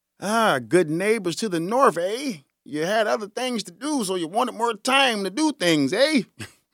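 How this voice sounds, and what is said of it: Poor imitation of Canadian accent. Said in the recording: “My Canadian accent sucks”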